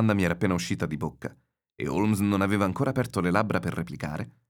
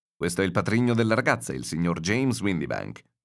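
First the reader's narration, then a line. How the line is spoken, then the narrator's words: Plain. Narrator (Italian): disse Holmes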